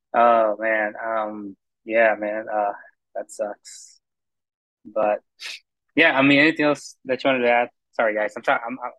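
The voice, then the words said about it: Very tired voice. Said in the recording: “I sound super tired”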